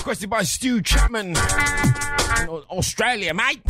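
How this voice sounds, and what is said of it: So-so put-on Australian accent. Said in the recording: “my Australian accent's just it's all right.”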